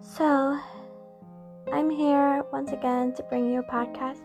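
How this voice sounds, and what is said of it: Tired-sounding voice. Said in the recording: “I feel a little tired, so sorry if my voice is different.”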